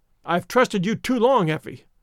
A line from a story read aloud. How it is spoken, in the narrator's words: he cried sternly